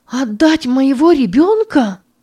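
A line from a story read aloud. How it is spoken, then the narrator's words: Shouted. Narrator (Russian): закричала Санна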